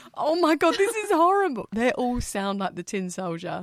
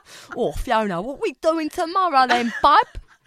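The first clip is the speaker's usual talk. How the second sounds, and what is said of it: Badly exaggerated imitation of own accent. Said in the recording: “impersonate your own accent so badly”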